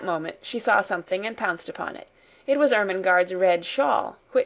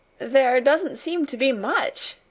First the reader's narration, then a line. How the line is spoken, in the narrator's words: answered, half laughing